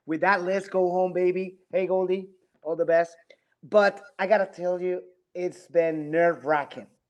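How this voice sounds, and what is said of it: Hoarse, strained voice. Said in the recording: “I lost my voice. I apologize. I lost my voice.”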